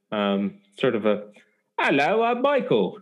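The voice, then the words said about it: Put-on London-area English accent. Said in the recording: “English accent ... I was sort of London area ... the suburbs, further suburbs of London”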